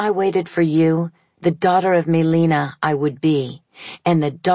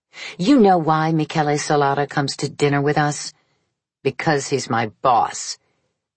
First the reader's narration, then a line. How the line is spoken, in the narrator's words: She said, in the most antagonistic tone she was capable of